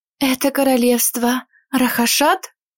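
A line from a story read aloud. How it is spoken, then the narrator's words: Breathless exhale. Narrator (Russian): выдохнула Эвелина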